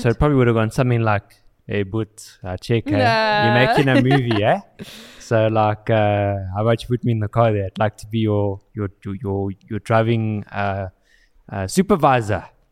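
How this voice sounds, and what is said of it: Put-on South African accent. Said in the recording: “the accent... This became a very South African joke.”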